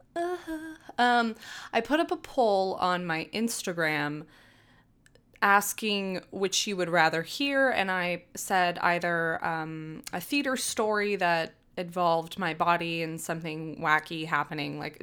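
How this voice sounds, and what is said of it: Out of breath, breathy speech. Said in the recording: “why am I already out of breath?”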